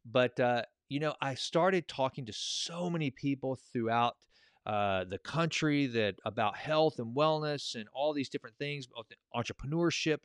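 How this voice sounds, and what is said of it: Thick East Texas accent. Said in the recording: “thick Eastern-sounding accent. Eastern Texan, maybe, accent.”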